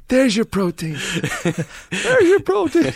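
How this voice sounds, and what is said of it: High-pitched imitation of another man. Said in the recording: “He had a high voice.”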